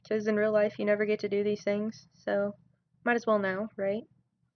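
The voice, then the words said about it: Southern US accent. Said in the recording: “I'm from Tennessee, so if you pick up on a southern accent at any point, that's probably why. I'm now conscious about my southern accent”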